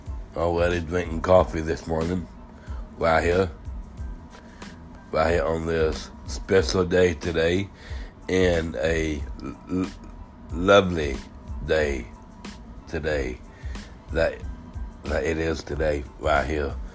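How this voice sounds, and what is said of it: Hoarse, strained voice. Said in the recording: “Please excuse my voice... I almost threw it out on on Sunday night... I actually was screaming and shouting nonstop all night”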